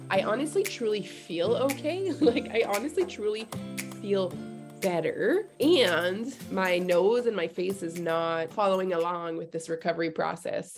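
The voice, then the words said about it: Raspy, congested voice with sniffles. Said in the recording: “you may hear in my voice that I am a little bit under the weather ... a little bit of raspy voice, a little bit of the sniffles”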